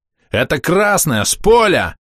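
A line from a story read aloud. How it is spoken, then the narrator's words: Yelling. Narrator (Russian): орал киллер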